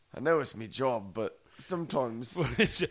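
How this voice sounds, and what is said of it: Weak attempt at English accent. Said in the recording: “my lack of a fucking English accent”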